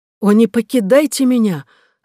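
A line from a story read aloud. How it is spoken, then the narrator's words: Queen exclaiming. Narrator (Russian): воскликнула королева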